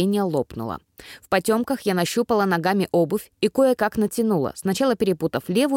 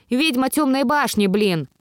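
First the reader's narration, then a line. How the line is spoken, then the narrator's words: Barked. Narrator (Russian): рявкнула я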